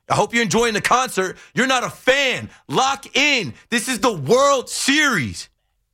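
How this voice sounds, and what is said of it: Yelling loudly. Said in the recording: “I'm sorry for yelling.”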